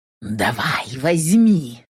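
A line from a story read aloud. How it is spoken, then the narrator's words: Whispered. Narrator (Russian): шепнул внутренний дракон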